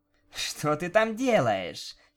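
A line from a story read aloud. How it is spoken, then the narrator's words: Giggling. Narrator (Russian): хихикая произнесла она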